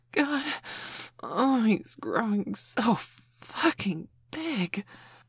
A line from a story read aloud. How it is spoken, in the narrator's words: Mum gasped